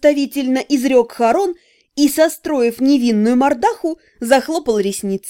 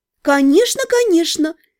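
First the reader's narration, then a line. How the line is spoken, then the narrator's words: Sweet singsong. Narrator (Russian): ласково пропела я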